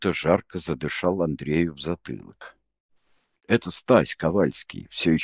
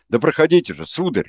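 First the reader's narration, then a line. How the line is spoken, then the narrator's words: Angry shout. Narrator (Russian): зло прикрикнул он на Андрея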